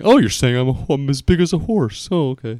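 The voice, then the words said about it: Imitates another person's voice. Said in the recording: “That was my Anna impression, by the way. It was so bad.”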